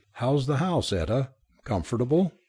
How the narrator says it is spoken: he said cheerfully

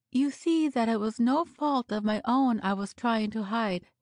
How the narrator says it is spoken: she finally remarked in a rich and sympathetic voice

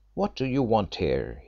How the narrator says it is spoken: he said in a sharp voice, he was frightened

